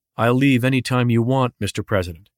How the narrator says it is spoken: replied evenly

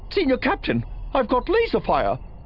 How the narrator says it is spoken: Vimsk said sharply

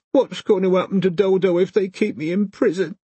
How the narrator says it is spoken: She asked him through her sobs

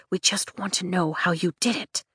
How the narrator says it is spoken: Caroline whispers

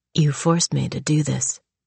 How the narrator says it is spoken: Shane whispered into the dark

